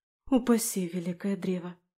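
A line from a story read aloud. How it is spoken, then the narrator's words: Barely audible mutter. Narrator (Russian): Пробормотала я едва слышно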